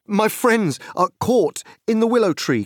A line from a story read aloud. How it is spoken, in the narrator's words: cried Frodo breathlessly